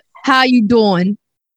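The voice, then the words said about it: Imitates a TV character's accent. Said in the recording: “I can't do the accent. You have to do it for me. ... Perfect. That's it. ... One accent I can do.”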